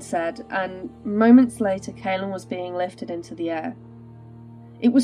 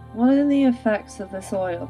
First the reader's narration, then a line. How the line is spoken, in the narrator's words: He asked sleepily